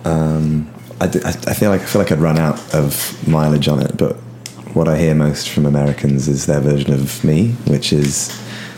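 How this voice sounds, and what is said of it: British accent. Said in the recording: “your real British accent”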